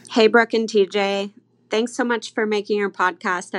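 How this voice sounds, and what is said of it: British accent. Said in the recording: “from across the pond. Nailed the accent.”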